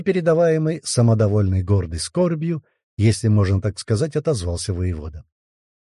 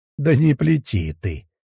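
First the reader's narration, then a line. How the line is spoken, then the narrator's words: Laughing. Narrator (Russian): рассмеялся Всеслав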